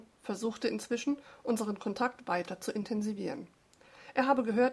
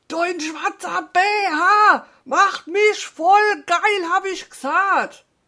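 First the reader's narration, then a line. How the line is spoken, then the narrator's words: Shouted reply. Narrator (German): brüllte zurück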